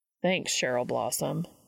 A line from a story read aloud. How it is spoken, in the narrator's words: he said dryly